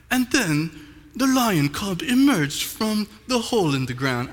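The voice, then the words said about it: Put-on British narrator accent. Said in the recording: “there's usually these people with British accents, and they're like ... wow, what a beautiful accent”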